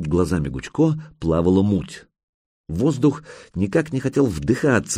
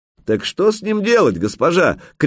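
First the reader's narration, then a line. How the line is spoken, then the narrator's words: Shouted after her. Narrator (Russian): крикнули ей вслед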